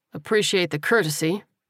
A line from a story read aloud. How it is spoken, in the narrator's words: the captain replied dryly